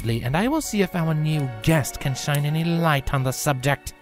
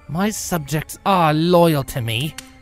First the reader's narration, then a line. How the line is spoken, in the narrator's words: Nightmare snapped back